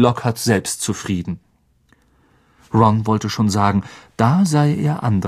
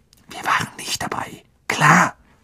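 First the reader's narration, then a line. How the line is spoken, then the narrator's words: Hissed. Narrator (German): zischelte Harry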